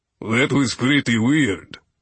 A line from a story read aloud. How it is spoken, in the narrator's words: Yor said into the silence that followed, his voice flat